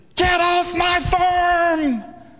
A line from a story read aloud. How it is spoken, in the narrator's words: screamed